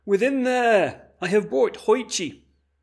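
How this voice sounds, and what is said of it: Loud called-out line. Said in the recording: “cried out in a loud voice,”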